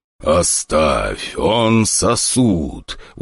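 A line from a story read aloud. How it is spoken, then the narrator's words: Weary growl. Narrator (Russian): устало прорычал преследователь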